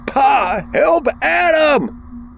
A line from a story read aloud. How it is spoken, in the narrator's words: Matthew screamed from the basement steps